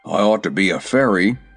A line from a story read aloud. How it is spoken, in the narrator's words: grumbled Jim